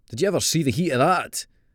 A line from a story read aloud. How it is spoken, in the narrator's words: asked, hissing through his teeth